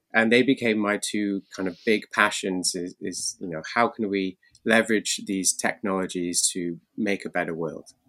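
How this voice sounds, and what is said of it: British accent. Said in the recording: “if you can't tell by the accent, he's out in the UK”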